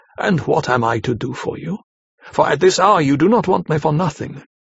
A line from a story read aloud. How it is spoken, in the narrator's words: he said cheerfully